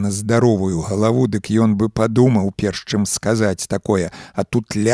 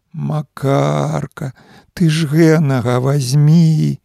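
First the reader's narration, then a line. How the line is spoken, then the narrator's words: Tearful singsong, mother. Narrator (Belarusian): Маці, усё тым жа плаксівым голасам праспявала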